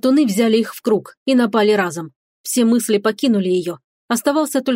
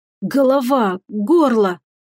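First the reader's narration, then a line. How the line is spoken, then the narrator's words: Weak wheeze. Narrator (Russian): прохрипел слабым голосом Келлен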